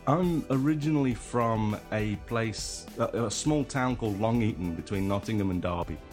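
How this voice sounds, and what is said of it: British English accent. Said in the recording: “someone with a marginally similar accent to myself ... What part of the UK are you from?”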